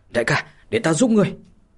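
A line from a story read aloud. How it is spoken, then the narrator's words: Loud shout. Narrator (Vietnamese): lớn tiếng mà quát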